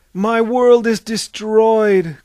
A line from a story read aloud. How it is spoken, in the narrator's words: cried R